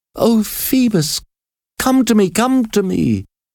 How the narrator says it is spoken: cried

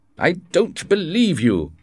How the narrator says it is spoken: shouted the king

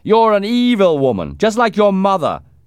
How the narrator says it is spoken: he used to shout

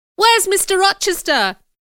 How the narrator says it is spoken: shouted

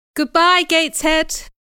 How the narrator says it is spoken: I cried

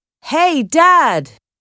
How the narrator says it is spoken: called loudly

